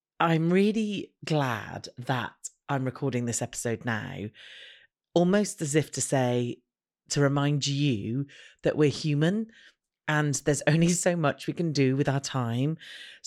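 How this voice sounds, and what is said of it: Tired, worn-out voice. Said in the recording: “as you can probably hear from my voice, I am worn out.”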